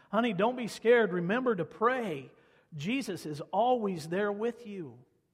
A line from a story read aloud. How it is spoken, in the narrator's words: She yelled back and said, just said back to him